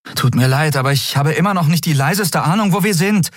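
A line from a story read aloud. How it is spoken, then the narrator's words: Called out. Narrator (German): rief sie Nelen zu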